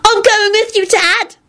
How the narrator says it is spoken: Teddy shrieked and clung to him desperately

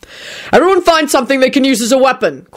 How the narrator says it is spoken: Quentin shouted

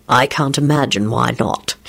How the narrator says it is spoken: he said dryly

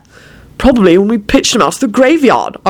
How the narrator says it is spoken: Arthur replied cheerfully

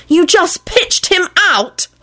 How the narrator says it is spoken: Elizabeth screamed accusingly at Quentin

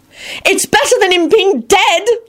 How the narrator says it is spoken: Elizabeth screeched frantically

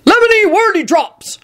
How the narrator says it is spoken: shouted Hagrid into the stone gargoyle

